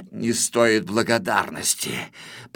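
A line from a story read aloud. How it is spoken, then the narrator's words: Mumbled. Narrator (Russian): пробормотал Грифель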